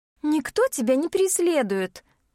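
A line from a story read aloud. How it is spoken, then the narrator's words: Somewhat unsure, defensive stepsister. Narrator (Russian): несколько неуверенно пытается оправдаться сводная сестра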